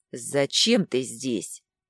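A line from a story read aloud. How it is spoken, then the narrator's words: Spat out. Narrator (Russian): буквально выплюнул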